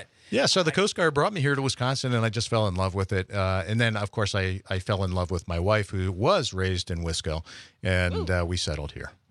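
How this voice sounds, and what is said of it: Slight Pennsylvania Dutch accent, rounded O's. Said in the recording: “You do have a little bit of a Pennsylvania Dutch accent... I round the O's a little bit”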